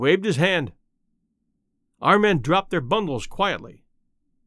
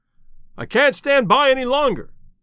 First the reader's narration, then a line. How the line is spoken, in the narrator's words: shouted the other